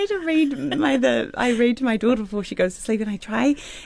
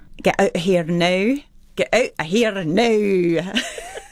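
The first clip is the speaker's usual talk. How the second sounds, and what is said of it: Put-on Scottish accent. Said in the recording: “sit down with a Scottish woman and just go through some of the words ... they sound all their R's ... Is there a sentence that you have that gets you into the accent?”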